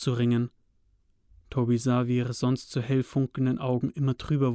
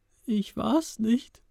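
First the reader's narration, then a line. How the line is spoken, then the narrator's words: Whiny tearful voice. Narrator (German): hörte Toby die Gestalt mit weinerlicher Stimme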